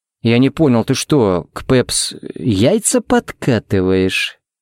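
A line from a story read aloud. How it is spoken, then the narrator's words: Drawling, menacing. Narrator (Russian): протянул он угрожающе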